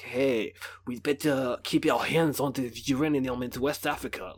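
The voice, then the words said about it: Put-on French accent. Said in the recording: “that's my impression of a French accent.”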